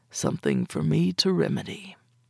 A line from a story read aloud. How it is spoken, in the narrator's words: Lowering his voice, he bent to my ear again and said